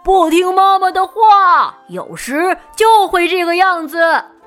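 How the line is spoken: Gruff loud shout. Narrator (Chinese): 大熊用他粗大的嗓门朝他喊道

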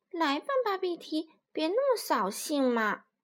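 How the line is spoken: Soft. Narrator (Chinese): 巴比蒂轻声说

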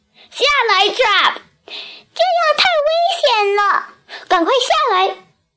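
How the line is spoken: Loud group shout. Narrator (Chinese): 我们全体大声喊道

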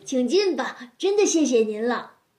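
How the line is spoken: Smiling, warm. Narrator (Chinese): 微笑着说

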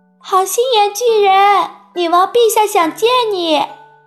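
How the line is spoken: Calling out. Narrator (Chinese): 索菲叫道

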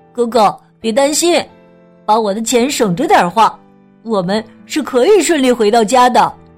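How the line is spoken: Smiling. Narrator (Chinese): 麦伊卢笑眯眯地说

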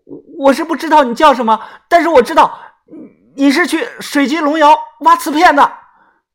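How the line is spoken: Loud shout. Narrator (Chinese): 马凤凤 大声的喊

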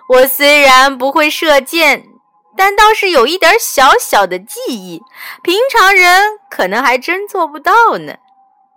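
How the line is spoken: Smiling. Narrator (Chinese): 卖油翁笑笑说

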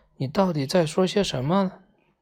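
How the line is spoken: Plain question. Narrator (Chinese): 彼得潘问道

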